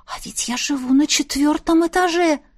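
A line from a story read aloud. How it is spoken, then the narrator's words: Surprised whisper. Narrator (Russian): удивленно прошептала Настя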